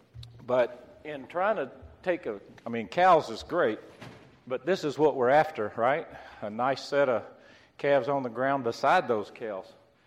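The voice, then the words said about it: Slightly scratchy, hoarse voice. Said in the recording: “my voice is a little scratchy. I was hoarse ... I'm still kind of on the mend.”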